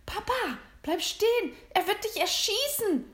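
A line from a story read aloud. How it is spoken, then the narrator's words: Screamed. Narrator (German): schrie William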